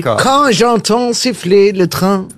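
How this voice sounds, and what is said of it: Put-on German accent, singing. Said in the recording (French): “avec l'accent allemand? Ça, oui, alors les trains et l'accent allemand”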